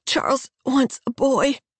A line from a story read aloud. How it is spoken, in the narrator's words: she pants